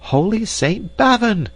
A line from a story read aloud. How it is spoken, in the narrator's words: screeched the dame